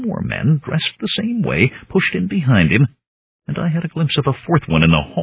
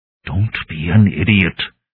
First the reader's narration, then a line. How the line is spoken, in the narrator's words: the man whispered